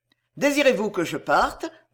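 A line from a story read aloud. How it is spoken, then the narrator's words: Quick, eager. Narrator (French): dit Hugues vivement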